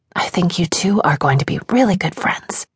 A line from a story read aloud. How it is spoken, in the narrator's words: Katie laughed and walked me out of the room, whispering